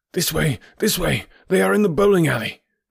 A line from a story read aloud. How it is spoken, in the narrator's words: cried the stranger